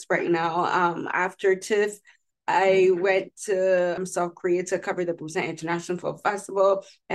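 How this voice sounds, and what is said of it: Hoarse voice. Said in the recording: “forgive my voice. I'm a bit hoarse”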